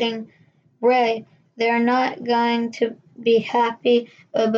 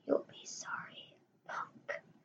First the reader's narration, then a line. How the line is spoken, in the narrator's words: the dummy it said in a hoarse whisper